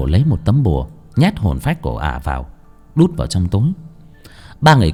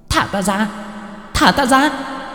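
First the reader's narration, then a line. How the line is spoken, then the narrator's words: Ghostly shriek. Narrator (Vietnamese): Hồn phách của ả rít lên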